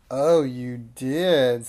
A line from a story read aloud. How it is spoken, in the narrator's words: sneered Madame Snickersnee